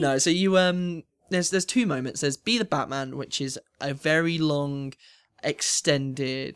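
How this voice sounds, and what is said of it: Usual voice. Nothing is said of it.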